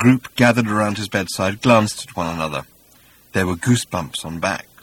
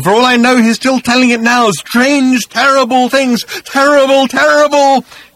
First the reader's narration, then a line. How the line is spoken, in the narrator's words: he screamed